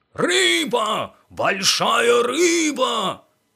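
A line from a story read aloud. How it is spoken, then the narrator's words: Yelling nearby. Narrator (Russian): орал рядом Сказкин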